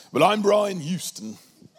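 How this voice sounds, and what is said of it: Put-on Australian accent. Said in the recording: “I'll do my Australian one because it's good ... that's terrible”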